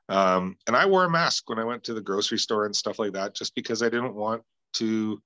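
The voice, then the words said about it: Sick, congested-sounding voice. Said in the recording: “You can probably tell by my voice that I've been dealing with a cold this week.”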